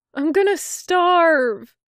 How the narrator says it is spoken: he whined

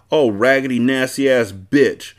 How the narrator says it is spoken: barked

